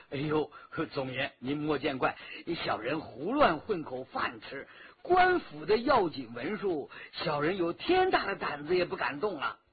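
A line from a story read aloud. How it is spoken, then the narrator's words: Short man laughing ingratiatingly. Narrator (Chinese): 那矮子直陪笑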